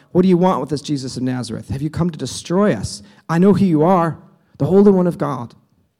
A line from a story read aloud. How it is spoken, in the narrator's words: a man in the synagogue who was possessed by an impure spirit cried out